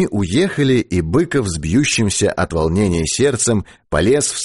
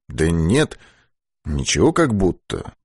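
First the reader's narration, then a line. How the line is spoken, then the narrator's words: Hesitant mutter. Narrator (Russian): нерешительно пробормотал Быков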